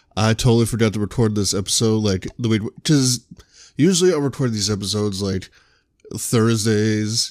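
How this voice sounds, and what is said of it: Tired-sounding voice. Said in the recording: “I apologize if I sound a little tired.”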